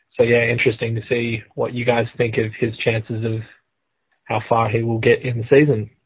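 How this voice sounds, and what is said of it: Australian accent. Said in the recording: “a voicemail from down under ... What an odd accent.”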